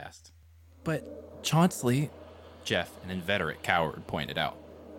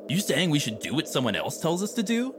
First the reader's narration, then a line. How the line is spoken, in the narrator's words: Sangjun scoffed